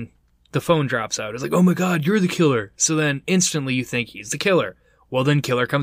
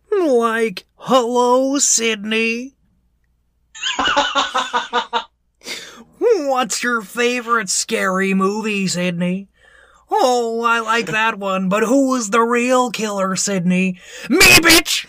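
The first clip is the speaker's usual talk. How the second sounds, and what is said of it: Shaggy cartoon character voice. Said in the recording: “in your Shaggy voice”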